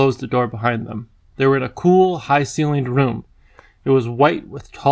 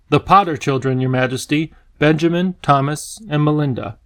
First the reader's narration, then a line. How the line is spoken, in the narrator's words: he announced in a clear voice